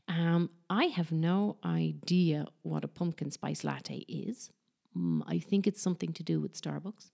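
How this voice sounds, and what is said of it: Non-American English accent. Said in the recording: “very obviously from my accent, I'm not from the United States.”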